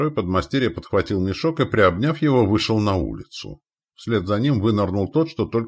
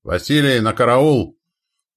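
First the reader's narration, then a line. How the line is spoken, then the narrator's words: Said sternly. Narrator (Russian): произнес строго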